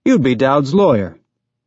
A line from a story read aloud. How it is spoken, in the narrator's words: Miller said cheerfully